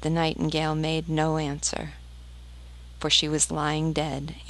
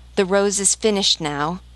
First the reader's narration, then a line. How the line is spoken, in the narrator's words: cried the tree